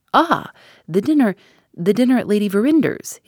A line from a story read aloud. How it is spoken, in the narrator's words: he exclaimed, more eagerly than ever